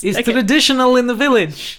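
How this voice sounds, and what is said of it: Generic put-on Eastern European accent. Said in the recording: “my just generic Eastern European accent”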